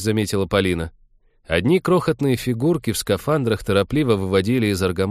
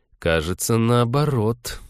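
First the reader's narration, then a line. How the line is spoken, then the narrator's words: Gloomy objection. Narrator (Russian): мрачно возразил Станислав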